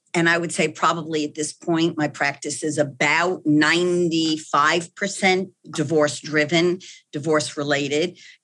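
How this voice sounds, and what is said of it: Slight New York accent. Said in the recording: “still have a little bit of that New York accent”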